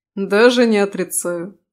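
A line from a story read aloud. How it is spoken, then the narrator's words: Snorting. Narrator (Russian): фыркнул Рис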